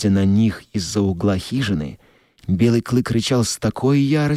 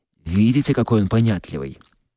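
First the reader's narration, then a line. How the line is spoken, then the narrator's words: Hurried. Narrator (Russian): торопливо продолжал Скотт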